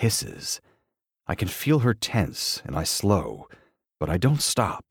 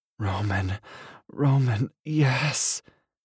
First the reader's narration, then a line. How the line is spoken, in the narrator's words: she moans